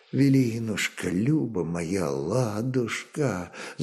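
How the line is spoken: Involuntary whisper. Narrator (Russian): зашептали сами собой его непослушные уста

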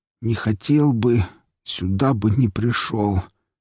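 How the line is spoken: Hoarse, strained. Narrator (Russian): сипло выдавил я

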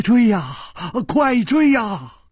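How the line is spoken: Trembling with terror. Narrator (Chinese): 金半花早已经是面无人色了，他颤声说

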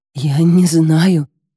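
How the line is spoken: Stuttering. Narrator (Russian): заикаюсь я

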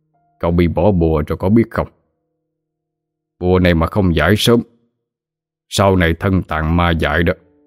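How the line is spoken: Sneering. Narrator (Vietnamese): Thầy Đường cười khẩy nói

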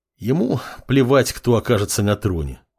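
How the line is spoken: Apprentice's sigh. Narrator (Russian): вздохнул темный подмастерье

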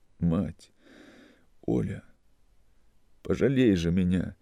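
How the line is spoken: Sobbing. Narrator (Russian): рыдал он

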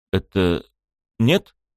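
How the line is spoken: Uncertain guess. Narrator (Russian): неуверенно предположил я

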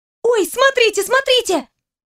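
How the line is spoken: Sudden shriek. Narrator (Russian): внезапно взвизгнула Алина

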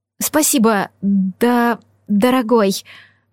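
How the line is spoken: Stammering. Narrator (Russian): заикаясь, ответил я

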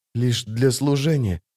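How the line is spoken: Whisper. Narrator (Russian): прошептала Джессика

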